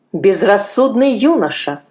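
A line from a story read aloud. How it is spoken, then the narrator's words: Stern exclamation. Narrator (Russian): строго воскликнул он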